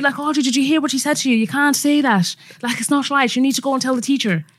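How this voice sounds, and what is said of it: Imitated strong Irish accent. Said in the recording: “the accent's sick ... She had a strong Irish accent ... the way you've just done it”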